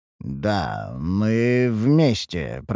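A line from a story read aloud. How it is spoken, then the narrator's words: Mutter. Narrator (Russian): пробормотал я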